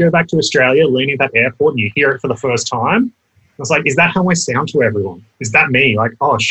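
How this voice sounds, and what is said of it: Usual voice. Nothing is said of it.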